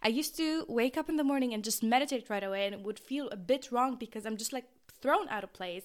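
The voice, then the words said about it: Talking very fast. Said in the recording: “I'm talking so fast”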